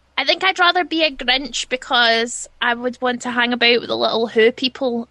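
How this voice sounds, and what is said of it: Scottish accent. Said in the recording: “That accent is exactly... That is the best... That's what I'm aiming for when I do my Scottish impression.”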